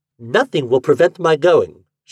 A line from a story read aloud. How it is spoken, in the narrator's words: she said firmly